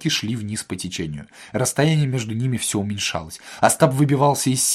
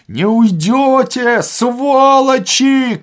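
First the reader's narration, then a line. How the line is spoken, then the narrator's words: Shouting from a barge. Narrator (Russian): кричали из барки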